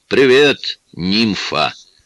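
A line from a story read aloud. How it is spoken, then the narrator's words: Loud booming voice. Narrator (Russian): обратился он к Лоис зычным голосом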